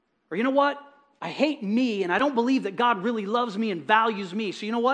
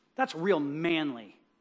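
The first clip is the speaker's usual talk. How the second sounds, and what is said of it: Sarcastic tone. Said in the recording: “that was sarcasm.”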